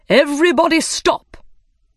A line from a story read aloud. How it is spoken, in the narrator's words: the Dodo cried